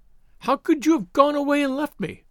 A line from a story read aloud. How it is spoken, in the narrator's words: she cried, reproachfully